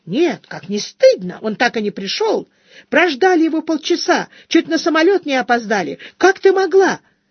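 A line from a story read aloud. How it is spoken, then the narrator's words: Shrill rapid chatter. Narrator (Russian): Визгливым голосом Алина противно затараторила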